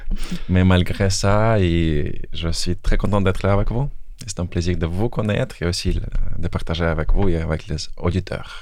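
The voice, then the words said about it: Belarusian accent in French. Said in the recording (French): “je suis d'origine biélorusse ... je pense que vous percevez, vous verrez mon accent. Peut-être quelques erreurs.”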